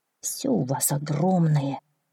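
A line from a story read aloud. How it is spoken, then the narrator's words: Gloomy small donkey. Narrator (Russian): мрачно ответил маленький ослик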